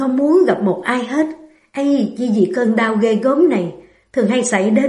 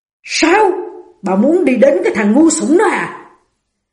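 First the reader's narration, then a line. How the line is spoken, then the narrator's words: Man roaring. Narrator (Vietnamese): Ông ta gầm lên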